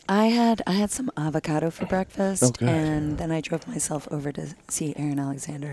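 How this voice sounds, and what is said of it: Low, quiet, strained voice. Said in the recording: “sultry podcast voice ... I'm just going to keep my voice down a little bit because I have to talk and I've almost lost my voice”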